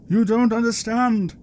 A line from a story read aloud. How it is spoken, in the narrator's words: the general wailed